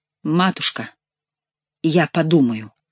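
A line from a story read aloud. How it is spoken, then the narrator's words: Slow deliberate speech. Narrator (Russian): медленно произнес герцог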